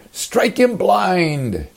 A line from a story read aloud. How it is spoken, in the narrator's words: Maybe some shouted